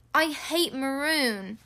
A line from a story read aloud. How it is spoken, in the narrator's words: Ron moaned half-heartedly